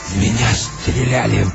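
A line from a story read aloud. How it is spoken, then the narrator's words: Hoarse rasp. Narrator (Russian): прохрипел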